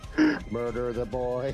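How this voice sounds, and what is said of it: Robot character voice. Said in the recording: “my Vicky impersonation. ... Vicky the robot.”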